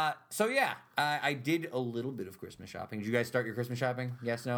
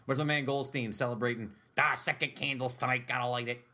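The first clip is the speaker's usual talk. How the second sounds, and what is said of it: Imitates another person's voice. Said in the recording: “my impression of that ... That's what he sounds really like.”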